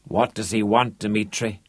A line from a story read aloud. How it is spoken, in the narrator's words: Rod croaked